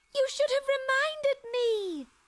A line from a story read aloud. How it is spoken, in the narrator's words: shrieked Lucy at the end of her tether